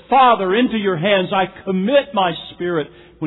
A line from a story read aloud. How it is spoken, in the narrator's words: In a loud voice, Jesus says